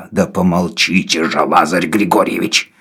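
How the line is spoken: Through gritted teeth. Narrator (Russian): сказал сквозь зубы Навага

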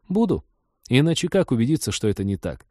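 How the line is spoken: Brisk, cheerful reminder. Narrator (Russian): Лика бодро напомнила

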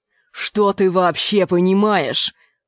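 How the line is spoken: Growl. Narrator (Russian): прорычал Энди

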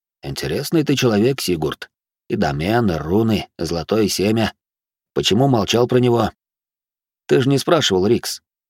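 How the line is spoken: Quiet. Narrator (Russian): Винсент негромко произнес

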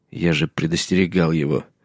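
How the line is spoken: Quiet. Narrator (Russian): негромко сказал Джон

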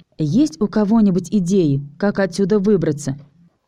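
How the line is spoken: Calm but nervous. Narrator (Russian): спросила Алиса, и хоть ее голос звучал спокойно, я почувствовал, что она нервничает

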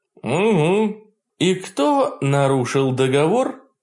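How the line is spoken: Muffled reminder. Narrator (Russian): глухо напомнил я

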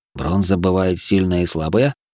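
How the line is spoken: Wary undertone. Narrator (Russian): С опаской Грай вполголоса проговорил

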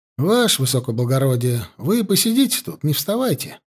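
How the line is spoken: Calm. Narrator (Russian): спокойно проговорил Гусев

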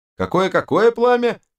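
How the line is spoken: Archer's shout. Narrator (Russian): снова выкрикнул лучник

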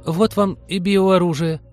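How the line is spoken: Trembling voice. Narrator (Russian): дрогнувшим голосом сказала Полина

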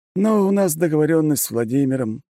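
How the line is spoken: Sighing. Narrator (Russian): вздохнул он

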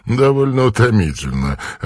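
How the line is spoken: Laughing infectiously. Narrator (Russian): ответил он, заразительно засмеявшись

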